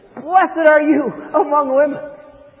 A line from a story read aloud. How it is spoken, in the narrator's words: in a loud voice, she exclaimed